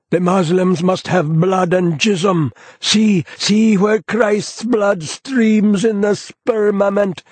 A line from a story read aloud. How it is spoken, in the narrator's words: howls the Mejoob